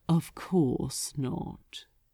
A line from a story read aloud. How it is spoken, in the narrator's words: the archdemon answered smoothly